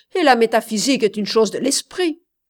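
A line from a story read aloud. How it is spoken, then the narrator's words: Doctor shouting. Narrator (French): cria le docteur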